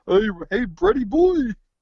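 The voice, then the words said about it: Yogi Bear-like cartoonish impression. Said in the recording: “That's a very good impression ... it's very easy to do Art Carney. You're basically doing Yogi Bear.”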